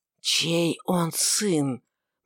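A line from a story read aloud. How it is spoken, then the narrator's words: Strange whisper. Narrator (Russian): повторил Варавва странным шепотом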